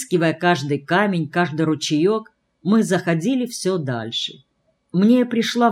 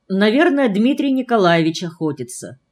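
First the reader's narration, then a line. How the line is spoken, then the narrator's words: Calm reply. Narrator (Russian): спокойно отозвался Селиверстов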